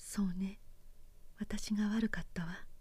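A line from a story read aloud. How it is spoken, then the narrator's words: Sighing, meek. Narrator (Japanese): 直子は自分が何か思い違いをしていたことに気がつきでもしたように深いため息をついたそして思いのほか素直に言った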